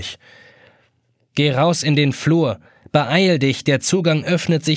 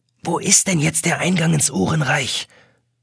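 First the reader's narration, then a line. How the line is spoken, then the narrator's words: Whispering over shoulder. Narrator (German): flüstert über die Schulter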